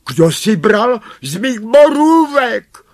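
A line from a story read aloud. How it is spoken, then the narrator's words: Exclaimed. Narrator (Czech): zvolal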